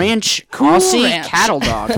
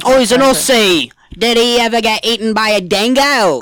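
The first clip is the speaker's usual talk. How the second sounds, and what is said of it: Convincing put-on Australian accent. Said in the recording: “my Australian accent ... It was a great accent ... I didn't even realize you were doing an accent. That's how good it was.”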